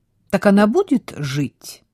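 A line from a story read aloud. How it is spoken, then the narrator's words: Cheerful question. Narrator (Russian): весело поинтересовался Вильям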